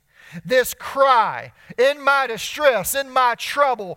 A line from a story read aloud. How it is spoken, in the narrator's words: I cried